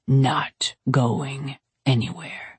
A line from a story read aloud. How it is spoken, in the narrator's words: he whispered into my ear